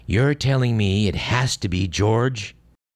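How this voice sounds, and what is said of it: Ronald Reagan impression. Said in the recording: “Let me see if we can do a Reagan impression on this.”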